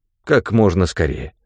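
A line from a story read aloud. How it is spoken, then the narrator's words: Plain. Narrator (Russian): сказал я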